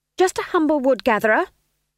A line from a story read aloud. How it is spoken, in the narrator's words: she snapped